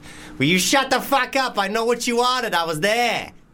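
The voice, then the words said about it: Good put-on Boston accent. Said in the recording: “do a Boston accent ... That's quite good ... That was quite good, actually ... you did a good accent”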